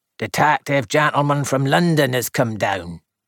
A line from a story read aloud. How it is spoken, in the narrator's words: grunted